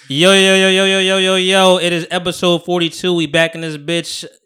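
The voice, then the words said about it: Yelling. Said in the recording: “And we yelling. ... You're yelling. ... I'm yelling. ... Is this a screaming match that you want?”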